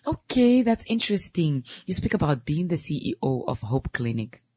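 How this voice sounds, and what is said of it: Creaky, strained voice. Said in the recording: “excuse my voice today. It's somehow creaky and somehow hard”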